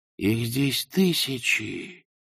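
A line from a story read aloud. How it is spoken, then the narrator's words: Whispered. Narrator (Russian): прошептал он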